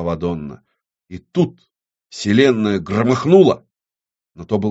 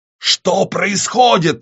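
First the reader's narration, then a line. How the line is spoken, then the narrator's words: Scream. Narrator (Russian): завопила Вадонна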